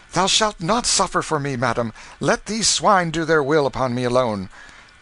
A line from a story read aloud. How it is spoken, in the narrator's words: Canty, exclaiming